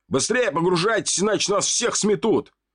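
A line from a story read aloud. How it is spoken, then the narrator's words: Man's shout. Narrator (Russian): выкрикнул мужчина из автобуса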